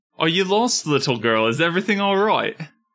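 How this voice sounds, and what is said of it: Put-on accent drifting British. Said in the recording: “Is my accent British for some reason today? ... It seems worse than usual.”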